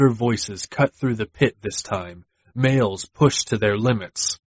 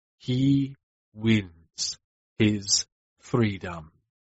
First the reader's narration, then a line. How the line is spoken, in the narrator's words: Master said slowly